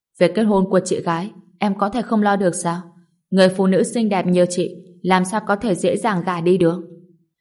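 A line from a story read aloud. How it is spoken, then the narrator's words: Angry. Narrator (Vietnamese): Sở Phàm tức giận nói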